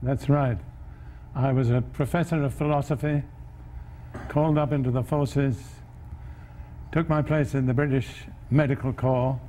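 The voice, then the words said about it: Proper British accent. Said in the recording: “that quite proper British accent”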